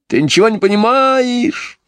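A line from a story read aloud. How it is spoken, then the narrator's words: Wailing even louder. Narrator (Russian): еще сильнее вопил Джон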